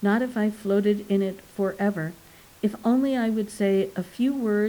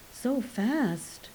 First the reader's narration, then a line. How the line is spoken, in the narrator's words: she murmured